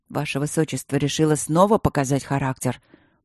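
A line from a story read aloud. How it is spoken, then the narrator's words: Near growl. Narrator (Russian): почти прорычал Байдак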